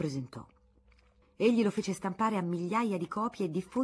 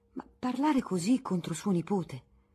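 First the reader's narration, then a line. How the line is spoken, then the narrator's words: Gentle reply. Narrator (Italian): rispondeva dolcemente Teresa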